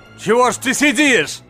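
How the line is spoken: Shouting. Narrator (Russian): закричал доктор

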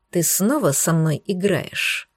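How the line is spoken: Pained mouthed whisper. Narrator (Russian): Одними губами прошептал Десмонд, чувствуя, как новая вспышка жжения прокатилась по грудной клетке

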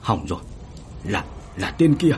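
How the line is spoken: Stammering. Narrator (Vietnamese): lắp bắp

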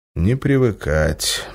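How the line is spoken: Grim smirk. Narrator (Russian): мрачно усмехнулся он

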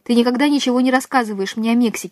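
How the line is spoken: Plain. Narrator (Russian): сказал Сантьяго

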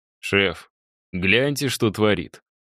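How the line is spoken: Snort. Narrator (Russian): хмыкнул Мишаня

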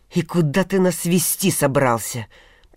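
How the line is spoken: Hissed. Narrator (Russian): прошипел Соловей

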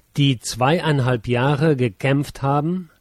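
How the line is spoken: Slow, deliberate words. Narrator (German): sage ich langsam, Wort an Wort aneinanderreihend

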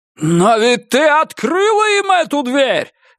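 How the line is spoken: Angel wailing. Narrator (Russian): завопил ангел

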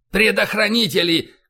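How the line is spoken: Shouted. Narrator (Russian): крикнул Файн

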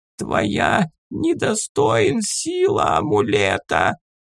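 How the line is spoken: Hoarse rasp, stone goblin. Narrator (Russian): прохрипел каменный гоблин

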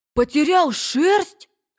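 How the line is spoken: Exclaimed. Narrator (Russian): воскликнул Макси

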